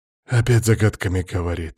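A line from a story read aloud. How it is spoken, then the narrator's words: Loud exasperated exhale. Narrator (Russian): шумно выдохнул Макс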